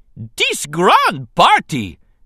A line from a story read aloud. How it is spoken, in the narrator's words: an exuberant Jar Jar shouted above the noise of cheering and clapping